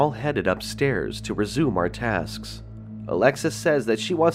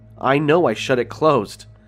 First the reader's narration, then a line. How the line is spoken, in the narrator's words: Peyton yells